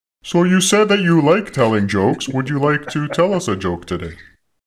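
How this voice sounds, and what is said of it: Mechanical-sounding disguised voice. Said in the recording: “it sounds to me like you're in a mechanical voice. Are you talking through some kind of a machine or something? ... it's a little bit odd? ... disguising themselves?”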